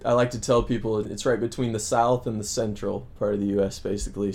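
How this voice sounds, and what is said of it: Missouri Midwestern accent, slight Southern. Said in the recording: “you have an accent. Mm-hmm. Is this a typical Missourian accent? ... a Midwestern neutral sort of accent. ... I get a kind of a Southern, but it's very small. ... it's got like a little dash of the Southern in there”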